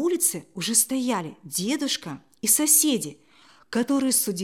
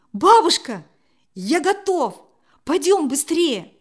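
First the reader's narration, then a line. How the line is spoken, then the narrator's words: Joyful exclamation. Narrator (Russian): радостно воскликнул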